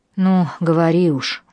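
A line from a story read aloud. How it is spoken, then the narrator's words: Sighing. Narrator (Russian): вздохнула я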